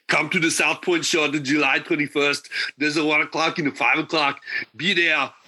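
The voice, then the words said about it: Imitates another person's voice. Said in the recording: “your best Arnold Schwarzenegger impression”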